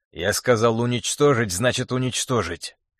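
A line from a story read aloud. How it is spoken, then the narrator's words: Angry hiss. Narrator (Russian): зло прошипел Тарас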